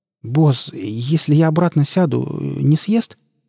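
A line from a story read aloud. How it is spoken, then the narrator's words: Timid frightened babble. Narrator (Russian): пролепетал Нарк, видимо, вопреки своим словам, мечтая оказаться подальше от этого костра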